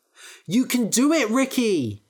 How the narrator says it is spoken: cried Max

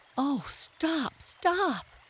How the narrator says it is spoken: cried the mole in ecstasies

